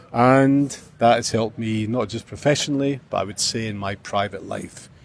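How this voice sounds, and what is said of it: Scottish-accented English. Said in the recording (Chinese): “苏格兰 Scotland 的口音”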